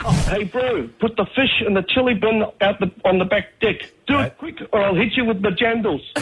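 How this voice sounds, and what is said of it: Exaggerated New Zealand accent. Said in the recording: “set the challenge for the best Kiwi accent”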